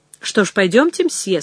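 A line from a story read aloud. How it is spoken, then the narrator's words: Plain. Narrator (Russian): сказал я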